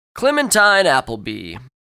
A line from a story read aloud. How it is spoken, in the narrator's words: he shouted, slurring his words slightly